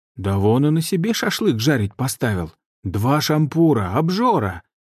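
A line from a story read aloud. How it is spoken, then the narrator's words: Exclaimed with feigned indignation. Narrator (Russian): Сделанным негодованием воскликнула хозяйка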